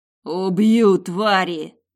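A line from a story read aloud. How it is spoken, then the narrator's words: Barely human growl. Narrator (Russian): раздавалось рычание, слабо напоминающее человеческое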